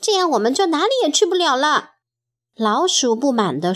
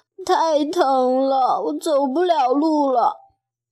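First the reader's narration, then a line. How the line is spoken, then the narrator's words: Crying. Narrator (Chinese): 弗洛格哭着说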